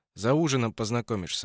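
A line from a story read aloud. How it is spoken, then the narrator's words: Plain. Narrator (Russian): ответил Петр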